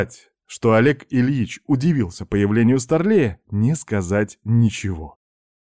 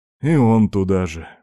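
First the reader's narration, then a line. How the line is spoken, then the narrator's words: Silent inner sigh. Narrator (Russian): мысленно вздохнул Степан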